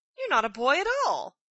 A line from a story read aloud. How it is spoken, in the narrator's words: There was some surprise on his part when he exclaimed